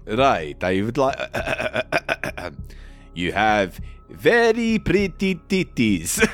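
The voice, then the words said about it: Put-on Italian accent. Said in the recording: “say generous nipples in an Italian accent”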